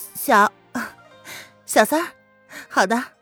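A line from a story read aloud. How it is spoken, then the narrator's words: Laughing. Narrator (Chinese): 小三儿闻言笑道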